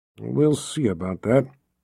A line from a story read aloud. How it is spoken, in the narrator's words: Zed grumbled